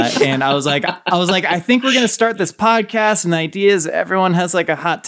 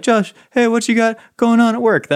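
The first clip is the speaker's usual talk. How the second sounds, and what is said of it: Imitates another person's voice. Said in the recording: “That's my impression of you, by the way.”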